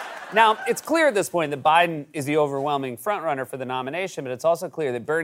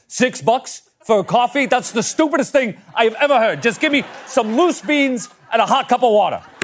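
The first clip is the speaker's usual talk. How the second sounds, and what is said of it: Bernie Sanders Brooklyn old-timer impression. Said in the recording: “hearing Bernie Sanders call Trump stupid. I think it's his Brooklyn accent. ... he reminds me of an old-timer”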